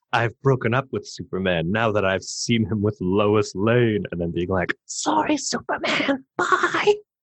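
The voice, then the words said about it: Stage whisper. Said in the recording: “that's a good voice you did... that's my stage whisper.”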